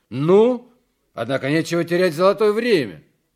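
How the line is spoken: Loud. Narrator (Russian): громко говорит

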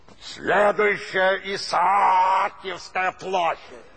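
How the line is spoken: Angry bark over microphone. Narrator (Russian): злобно рявкнул в микрофон водитель

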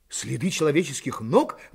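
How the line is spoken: Exclaimed. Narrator (Russian): воскликнул Пенкроф

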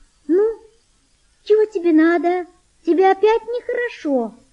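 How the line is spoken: Thin, tender voice. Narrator (Russian): сказала она тонким нежным голосом

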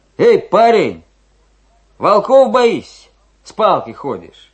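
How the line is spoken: Cheerful shout. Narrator (Russian): Один из них весело крикнул

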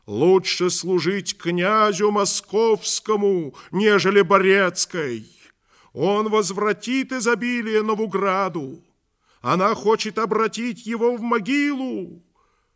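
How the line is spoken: Group shouting. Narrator (Russian): Тайные друзья Иоанновы кричали перед домом Ярославовым

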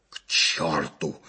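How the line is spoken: Hoarse rasp. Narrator (Russian): захрипел майор

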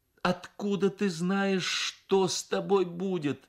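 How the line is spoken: Said, then sobbing. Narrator (Russian): сказала мать и разрыдалась

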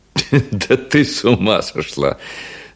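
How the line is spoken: Laughing. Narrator (Russian): смеясь, проговорил он

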